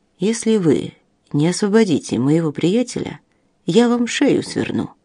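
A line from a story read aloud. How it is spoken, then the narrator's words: Quiet, even voice. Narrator (Russian): сказал тихим, ровным голосом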